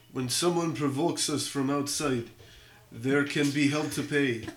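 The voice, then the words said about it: Put-on Russian accent. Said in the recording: “I don't know if that's good Russian. ... it wasn't bad ... Like, in a Russian accent.”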